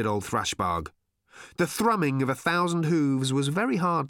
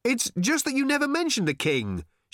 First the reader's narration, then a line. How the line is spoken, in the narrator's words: shouted Arthur back in some consternation